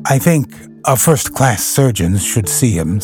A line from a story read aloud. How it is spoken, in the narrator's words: said